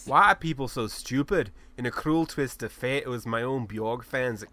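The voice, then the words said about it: Put-on Scottish accent. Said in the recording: “Why are you going Scottish?”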